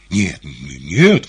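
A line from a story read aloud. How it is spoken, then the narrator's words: Exclaiming. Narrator (Russian): воскликнул Иван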